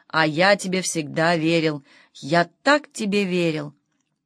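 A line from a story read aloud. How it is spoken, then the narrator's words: Muffled anguished moaning. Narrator (Russian): глухо стеная от нестерпимой боли в душе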